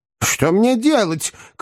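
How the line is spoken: Shouting. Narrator (Russian): крикнул мистер Уинкль

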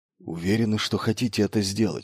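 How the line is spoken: Whispering. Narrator (Russian): шепнул капитан-пилот

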